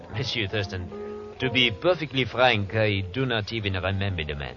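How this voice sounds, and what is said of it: Fake French accent. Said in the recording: “That French accent of yours is as phony as that Hawaiian dancer.”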